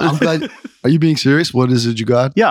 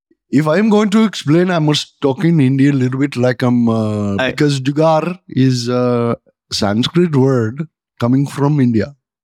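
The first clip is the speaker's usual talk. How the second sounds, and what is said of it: Put-on Indian English accent. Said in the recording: “I can also do the dialect ... No, I love this dialect. It's one of the most beautiful dialects ... Kanuj from India”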